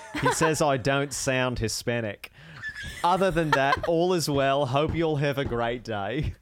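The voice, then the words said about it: Put-on Australian accent. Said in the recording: “I could read this in an Australian accent. I could try.”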